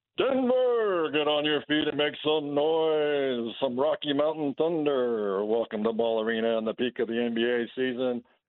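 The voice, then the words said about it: Hyped sports arena announcer voice. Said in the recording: “your best Nuggets announcer voice”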